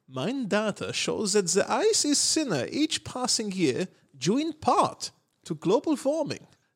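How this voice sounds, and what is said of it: Weird put-on accent. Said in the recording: “That's a weird name for that accent ... I'm committed to the accent”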